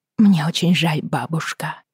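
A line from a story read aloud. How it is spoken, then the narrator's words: Quiet. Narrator (Russian): тихо произнесла Бри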